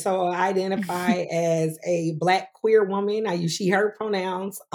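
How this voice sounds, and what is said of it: South Carolina accent. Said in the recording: “I'm originally from Greenwood, South Carolina. So a lot of people ask me where my accent is from.”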